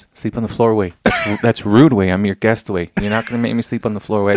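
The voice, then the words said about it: Impersonation of a friend. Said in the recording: “as soon as I do the impersonation, you know who I'm talking about”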